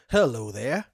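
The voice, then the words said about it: Put-on Southern accent. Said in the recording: “That's as far as I'll go with the Southern accent ... No, that was better than anything I've done.”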